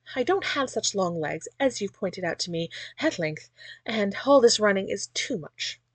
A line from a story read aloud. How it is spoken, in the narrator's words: panted, rather out of breath